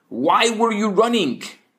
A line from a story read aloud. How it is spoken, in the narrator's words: he shouts